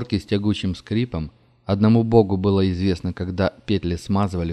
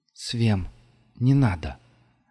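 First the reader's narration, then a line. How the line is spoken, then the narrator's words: Soundless mouthed whisper. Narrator (Russian): одними губами шепнула Нелла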